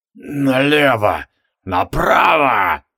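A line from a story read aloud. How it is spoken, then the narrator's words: Fading ghostly mutter. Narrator (Russian): цедил призрак исчезающим голосом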